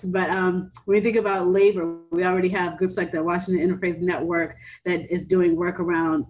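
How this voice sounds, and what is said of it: Very fast rushed speech. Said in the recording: “I'm already talking like an auctioneer. It's going to get even worse.”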